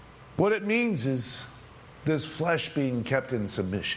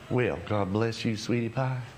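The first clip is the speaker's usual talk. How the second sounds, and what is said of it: Sweet put-on Southern accent. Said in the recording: “so sweet, especially if it, you know, especially if it has a southern accent.”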